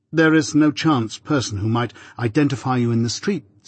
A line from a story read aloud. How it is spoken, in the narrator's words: said I